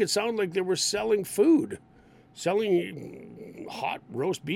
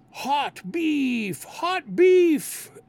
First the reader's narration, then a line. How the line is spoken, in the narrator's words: some people would start yelling out